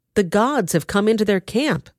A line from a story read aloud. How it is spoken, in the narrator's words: they cried